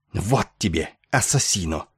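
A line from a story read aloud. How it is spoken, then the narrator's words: Furious hiss. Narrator (Russian): яростно прошипела она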